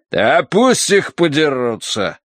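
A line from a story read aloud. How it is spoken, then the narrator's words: Pleased snort. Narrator (Russian): довольно хмыкнул Смайт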